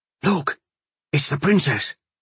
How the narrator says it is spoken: Cully whispered

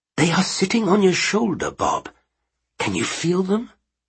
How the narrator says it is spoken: she said earnestly, sounding more like a psychic on the Blackpool Pier than a professional

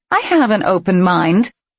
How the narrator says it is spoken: Ram snorted

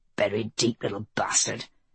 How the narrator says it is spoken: mutterings were Lily's

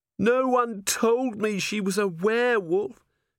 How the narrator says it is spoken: Cherie moaned

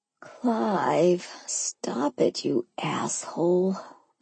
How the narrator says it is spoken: I moaned, hiding my head under the covers

